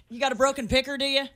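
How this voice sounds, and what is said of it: Thick put-on Southern accent. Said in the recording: “She'll say, you all. But she is thick. ... Worse than that, southern accent.”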